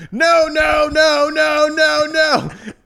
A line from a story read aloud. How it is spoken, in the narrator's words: yelling